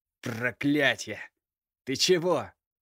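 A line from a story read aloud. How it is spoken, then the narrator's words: Growling. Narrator (Russian): прорычал Кирилл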